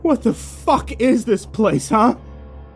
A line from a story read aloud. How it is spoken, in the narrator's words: screamed